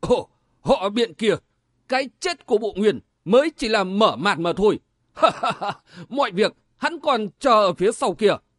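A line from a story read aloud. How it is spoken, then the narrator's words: Laughing loudly. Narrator (Vietnamese): Thường Đại Khí cười lớn nói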